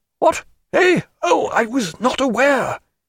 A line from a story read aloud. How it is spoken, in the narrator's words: The judge cried